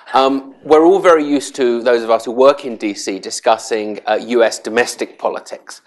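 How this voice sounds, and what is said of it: English accent. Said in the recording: “as you can probably tell from my accent, I'm from south of the border in England”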